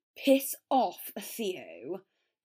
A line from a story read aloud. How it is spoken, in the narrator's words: Draco snarled